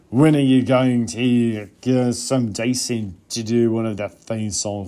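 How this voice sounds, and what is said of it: Bad drunken English accent, sounds Australian. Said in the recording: “let's do a little drunken English accent here... Why do I sound Australian drunk? I'm not trying to do that. That was terrible... that was god-awful”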